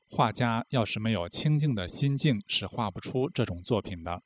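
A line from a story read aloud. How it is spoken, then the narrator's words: Admiring exclamation. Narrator (Chinese): 他感叹道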